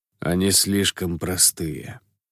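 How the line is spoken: Lazy, relaxed half-smile. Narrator (Russian): лениво ответил Шиол, сохраняя на губах легкую расслабленную полуулыбку

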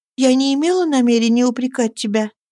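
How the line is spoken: Soft. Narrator (Russian): Она сказала мягко

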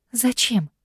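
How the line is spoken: Trembling voice. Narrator (Russian): спрашиваю я дрожащим голосом

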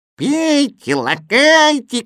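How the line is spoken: Shouting. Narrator (Russian): кричал Кузя

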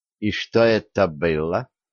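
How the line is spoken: Icy question. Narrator (Russian): ледяным тоном спросила Янка

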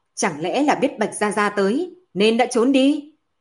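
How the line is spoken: Shouting. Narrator (Vietnamese): Bạch Long quát

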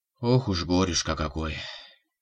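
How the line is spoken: Sigh. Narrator (Russian): вздохнула Мария Михайловна

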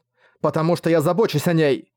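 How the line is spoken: Mother shouting. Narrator (Russian): выкрикнула мать

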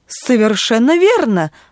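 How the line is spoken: Father exclaiming. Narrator (Russian): воскликнул отец

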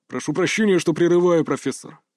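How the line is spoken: Deep bass voice. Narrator (Russian): пробасил он

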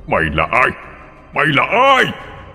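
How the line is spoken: Continued screaming. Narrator (Vietnamese): Ông ta vẫn còn gào lên

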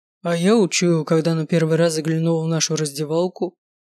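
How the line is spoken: Phlegmatic deep bass. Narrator (Russian): проговорил он флегматичным басом

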